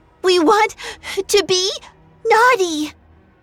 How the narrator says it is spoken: Turkey, between gasps for air, choked out

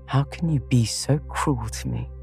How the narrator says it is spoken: whispered under cover of a lively chorus

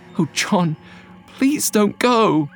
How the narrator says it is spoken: said, her voice trembling with anxiety

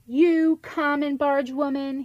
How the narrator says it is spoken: shouted

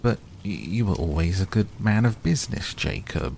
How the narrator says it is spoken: faltered Scrooge

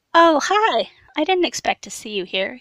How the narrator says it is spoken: said cheerfully

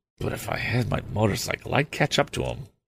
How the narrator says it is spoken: murmured

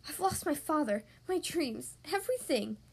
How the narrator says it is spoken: cried Belle

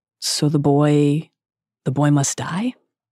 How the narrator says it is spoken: though he's described as speaking calmly, he is clearly disturbed

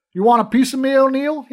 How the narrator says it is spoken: he shouted

